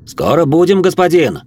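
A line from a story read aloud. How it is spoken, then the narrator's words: Shouting from a coach. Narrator (Russian): крикнул Живьен с козлов кареты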